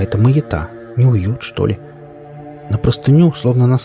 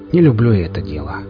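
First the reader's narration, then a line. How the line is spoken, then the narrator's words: Sighing. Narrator (Russian): вздохнул грызун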